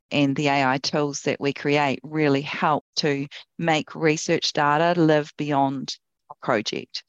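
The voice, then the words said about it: New Zealand accent. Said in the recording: “she has the best Kiwi accent”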